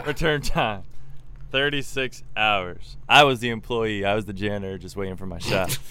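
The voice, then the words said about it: Imitates another person's voice. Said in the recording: “I'm Morgan Freeman. ... That was better than any of the ones that we tried.”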